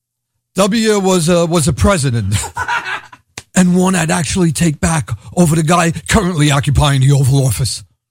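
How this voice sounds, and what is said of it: Brooklyn accent. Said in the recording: “my Brooklyn accent is a given”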